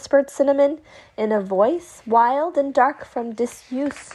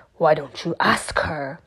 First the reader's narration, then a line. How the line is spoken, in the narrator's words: growled the tiger